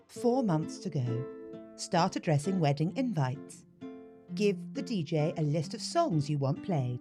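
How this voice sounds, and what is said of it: British accent. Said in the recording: “I read that in the wrong accent because um, obviously I've been doing it in this accent because this is my accent ... in the UK”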